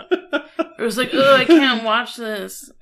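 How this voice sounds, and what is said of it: Impression of a co-host's complaining. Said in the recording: “That's my flawless impression of you.”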